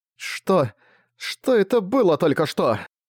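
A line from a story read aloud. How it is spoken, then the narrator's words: Groaning. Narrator (Russian): Застонала она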